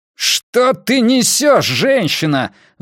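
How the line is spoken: Roaring. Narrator (Russian): взревел Рейдер

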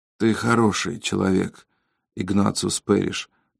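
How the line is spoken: Whisper. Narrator (Russian): прошептал Терри

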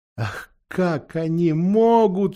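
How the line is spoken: Sobbing. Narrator (Russian): всхлипнул Люси

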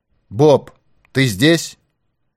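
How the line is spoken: Anxious shout into opening. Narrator (Russian): С бьющимся сердцем Пинкертон наклонился над отверстием и крикнул

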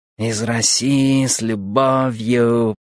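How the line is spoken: Purring hum. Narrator (Russian): промурлыкал он

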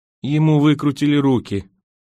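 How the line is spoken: Muffled, hollow voice. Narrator (Russian): заметила Эрна Фрай глуховатым голосом

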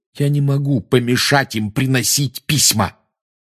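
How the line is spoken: Irritable snap. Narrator (Russian): огрызнулся Гарри

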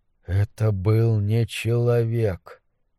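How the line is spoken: Muttered. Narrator (Russian): пробормотал Карл

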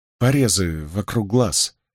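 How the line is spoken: Timid, strained. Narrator (Russian): робко выдавил Мэтью

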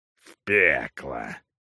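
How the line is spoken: Snorting. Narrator (Russian): хмыкнул капитан Иван Тох

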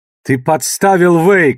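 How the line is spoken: Shouted. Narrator (Russian): крикнул Фаис

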